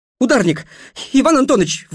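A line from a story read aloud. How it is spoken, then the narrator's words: Breathless exhale. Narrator (Russian): выдохнул он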